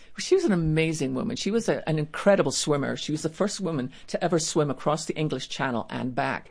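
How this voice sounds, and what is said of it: Speaks with a noticeable accent. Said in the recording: “you have the great accent”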